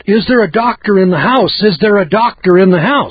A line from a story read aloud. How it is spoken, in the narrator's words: you yell out